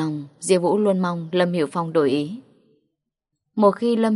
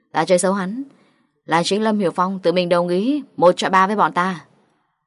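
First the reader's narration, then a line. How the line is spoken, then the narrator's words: Fierce, loud. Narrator (Vietnamese): Diêu Vũ hung dữ trừng mắt nhìn Hoàng Mập lớn tiếng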